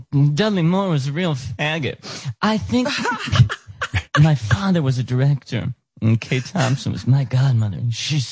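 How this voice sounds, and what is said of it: Imitates another person's voice. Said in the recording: “You do a pretty good Liza ... doing a good Liza impression ... I'll be Liza”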